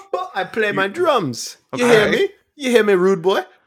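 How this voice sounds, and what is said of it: Put-on Jamaican accent. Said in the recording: “his Jamaican impression ... a Jamaican accent”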